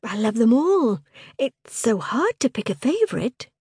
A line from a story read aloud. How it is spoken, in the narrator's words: said brightly